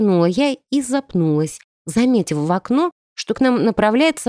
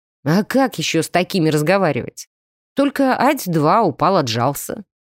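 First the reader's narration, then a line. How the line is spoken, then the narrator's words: Snorting. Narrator (Russian): хмыкнул Артем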